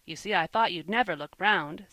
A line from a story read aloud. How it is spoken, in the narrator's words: said the boy with a laugh